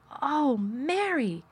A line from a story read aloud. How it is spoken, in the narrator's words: he cried out with half-sob